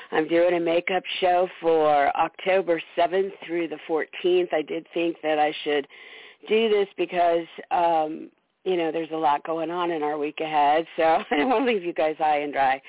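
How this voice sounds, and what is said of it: Hoarse, recovering throat. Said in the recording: “I almost have my throat back ... I sound a little weird ... put up with my voice”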